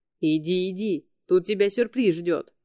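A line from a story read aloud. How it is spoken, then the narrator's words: Barked. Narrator (Russian): рявкнул Пандис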